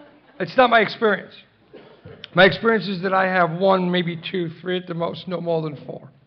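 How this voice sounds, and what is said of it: Usual voice. Nothing is said of it.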